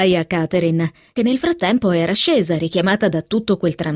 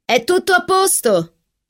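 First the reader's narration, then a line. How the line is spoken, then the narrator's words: Shouting. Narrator (Italian): gridò Catherine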